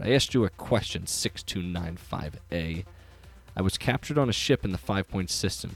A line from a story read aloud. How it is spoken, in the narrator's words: said through gritted teeth